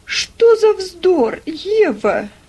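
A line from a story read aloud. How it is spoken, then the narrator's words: Exclamation. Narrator (Russian): воскликнула Мари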